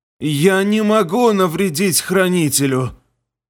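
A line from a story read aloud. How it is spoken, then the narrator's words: Hoarse wheeze. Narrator (Russian): Прохрипела лихо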